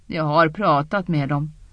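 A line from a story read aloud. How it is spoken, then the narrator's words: Sighed. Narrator (Swedish): Egwene suckade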